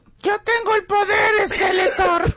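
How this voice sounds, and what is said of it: Strained, straining heroic shout. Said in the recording (Spanish): “Suenas como estreñido. ... Apretó de más”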